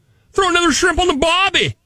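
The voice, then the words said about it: Put-on Australian accent. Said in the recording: “The sexiest accent, according to this poll, is Australian.”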